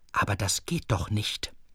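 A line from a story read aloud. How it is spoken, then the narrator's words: Whispered. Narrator (German): flüsterte Herr Kesselhut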